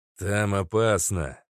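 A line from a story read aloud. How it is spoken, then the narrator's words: Curt and dry. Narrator (Russian): сухо бросил Остроушка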